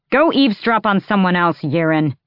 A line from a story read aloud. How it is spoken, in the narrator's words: Borte snapped toward her betrothed